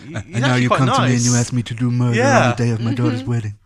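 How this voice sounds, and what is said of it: Imitates a movie character's voice. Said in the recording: “terrible impression”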